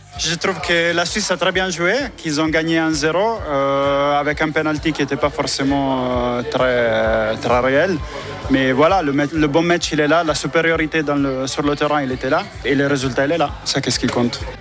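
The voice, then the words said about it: Italian accent speaking French. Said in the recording (French): “avec votre accent, vous supportez plutôt l'Italie.”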